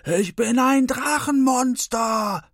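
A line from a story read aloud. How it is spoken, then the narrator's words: Thunderous roar. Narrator (German): Wie ein Wirbelsturm donnert dieser Satz über Santa Fe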